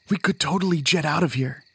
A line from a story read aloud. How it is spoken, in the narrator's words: Sun whispered